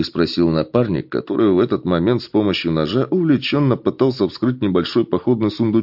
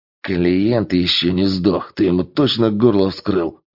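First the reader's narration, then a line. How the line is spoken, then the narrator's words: Menacing growl. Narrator (Russian): грозно рыкнул первый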